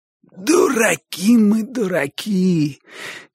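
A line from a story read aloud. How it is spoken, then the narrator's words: Hoarse shout. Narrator (Russian): крикнул он сиплым голосом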